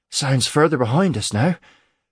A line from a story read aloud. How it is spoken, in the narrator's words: Cade said breathlessly